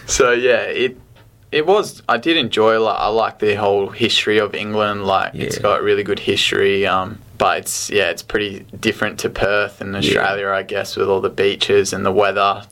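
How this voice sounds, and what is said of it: Australian accent. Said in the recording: “because of my Aussie accent, they still just ... see you as the Aussie guy”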